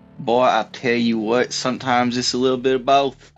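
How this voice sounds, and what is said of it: Exaggerated Southern redneck accent. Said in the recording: “I love that accent ... the super redneck ... Super southern”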